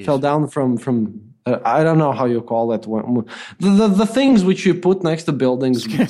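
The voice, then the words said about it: Strong foreign accent. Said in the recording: “I love that you dial up the accent when you get confused.”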